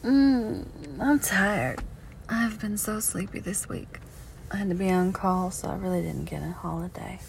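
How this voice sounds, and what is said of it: Tired voice with Southern accent. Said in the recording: “sound very southern ... It's my natural voice. This is my natural accent. ... when I'm very mad or very tired, like I am today, it comes out ... Louisiana”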